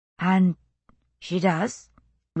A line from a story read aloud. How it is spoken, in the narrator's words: Rachel asked quietly, after a long pause